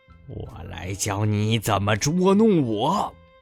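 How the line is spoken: Roaring. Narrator (Chinese): 大象咆哮着说

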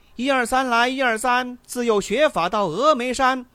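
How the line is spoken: Loud singing. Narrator (Chinese): 大声的唱道

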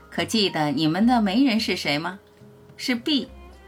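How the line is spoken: Joking. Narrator (Chinese): 我跟他们开玩笑说

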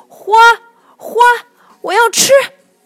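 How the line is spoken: Shouting while chasing. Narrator (Chinese): 胖小猪边追边喊

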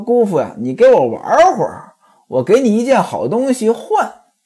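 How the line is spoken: Laughing. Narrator (Chinese): 小铁棍就笑了，说

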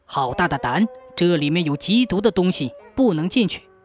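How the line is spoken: Stern rebuke. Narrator (Chinese): 有人厉声斥责说

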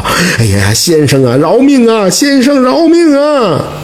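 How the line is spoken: Servants crying out repeatedly. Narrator (Chinese): 两个抬轿的衙役是连声的喊道

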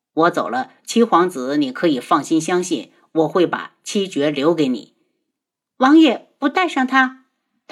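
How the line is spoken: Faint smile. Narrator (Chinese): 轩辕志浅笑了下

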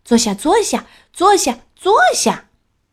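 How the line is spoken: Repeated shouting. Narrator (Chinese): 卢塔继续叫

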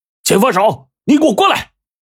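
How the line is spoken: Furious shout through megaphone. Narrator (Chinese): 水老板大怒啊，拿起大喇叭就喊

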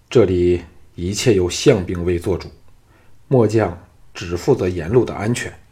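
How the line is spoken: Low, suppressed anger. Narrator (Chinese): 丁守心中有气，沉声说

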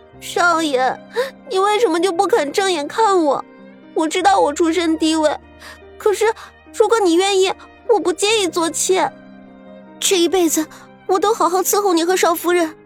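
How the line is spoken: Sobbing. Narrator (Chinese): 彩云哭哭啼啼的说

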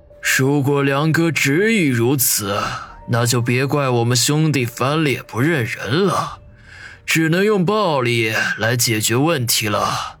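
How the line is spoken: Resigned sigh. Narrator (Chinese): 云师爷无奈的叹了口气

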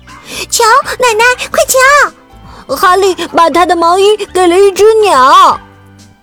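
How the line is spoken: Children calling excitedly. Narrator (Chinese): 孩子们叫道

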